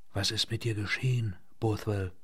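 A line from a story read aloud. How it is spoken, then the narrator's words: Fearful whisper. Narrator (German): flüsterte Poole, und die alte Angst kroch ihm in den Nacken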